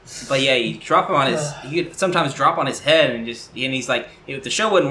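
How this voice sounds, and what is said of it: Usual voice. Nothing is said of it.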